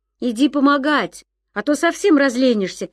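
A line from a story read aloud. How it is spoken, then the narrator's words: Shouting. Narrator (Russian): крикнул Ян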